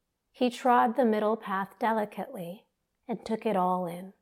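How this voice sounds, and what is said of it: Usual voice. Nothing is said of it.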